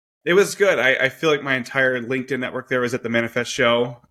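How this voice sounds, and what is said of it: Slightly hoarse voice. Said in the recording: “A little bit hoarse,”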